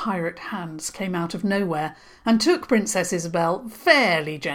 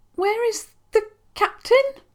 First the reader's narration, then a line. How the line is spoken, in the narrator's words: she said, and it was hard to speak without a little squeak of fear coming into her voice